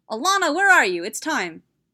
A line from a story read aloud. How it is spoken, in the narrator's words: yelled